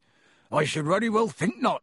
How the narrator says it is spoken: growled Hagrid

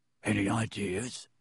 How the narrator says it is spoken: muttered Harry

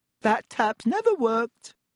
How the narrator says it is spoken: said Myrtle brightly

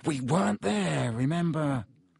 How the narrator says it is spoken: Harry muttered

